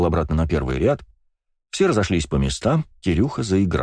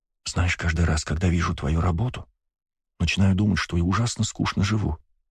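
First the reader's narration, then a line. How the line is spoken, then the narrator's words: Whispered in the ear. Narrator (Russian): прошептала мне на ухо Ева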